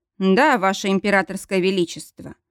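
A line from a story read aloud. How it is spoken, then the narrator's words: Dry. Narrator (Russian): сухо ответил Мортон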